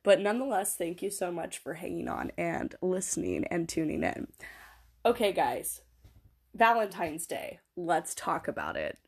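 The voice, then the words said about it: Sick, muffled, throaty voice. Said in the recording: “I want to apologize for my sickly voice. I am sick right now, so my voice is going to sound like it has a sock in the middle of my throat”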